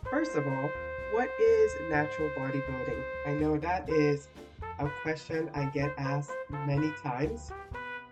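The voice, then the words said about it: Congested, stuffy-nosed voice. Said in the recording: “I get a head cold from Friday night, and it's just really subsiding, so you can hear it in my voice.”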